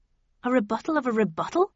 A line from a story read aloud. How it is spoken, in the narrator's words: I cried